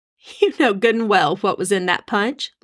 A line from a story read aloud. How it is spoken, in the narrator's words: Libby chuckled